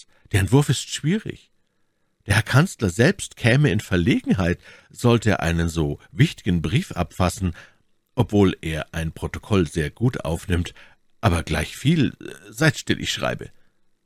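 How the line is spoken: Calling out. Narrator (German): rief Aramis

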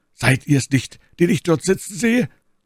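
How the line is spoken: Calling out. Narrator (German): rief er

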